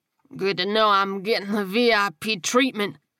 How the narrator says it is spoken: he slurred, marveling at how thick his tongue felt in his mouth

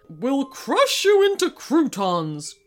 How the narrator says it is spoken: growled King Mallard menacingly

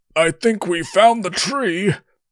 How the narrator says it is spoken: Darl grunted from below him

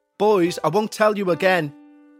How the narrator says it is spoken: shouted their mother through the front window

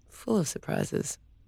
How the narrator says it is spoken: he muttered

